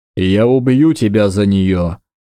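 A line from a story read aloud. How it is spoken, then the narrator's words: Growl. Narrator (Russian): прорычал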